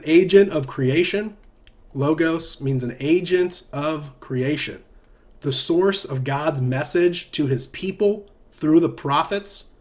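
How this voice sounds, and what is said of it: Southern American accent. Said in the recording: “my Southern American accent”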